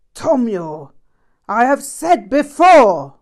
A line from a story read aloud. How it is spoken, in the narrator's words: yelled with great force